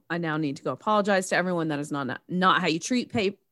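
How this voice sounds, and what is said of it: Regional accent slipping through. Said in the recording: “your accent. ... My accent's sneaking out.”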